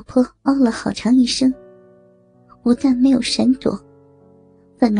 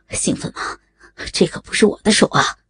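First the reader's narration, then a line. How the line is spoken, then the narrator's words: Breathless. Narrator (Chinese): 喘着说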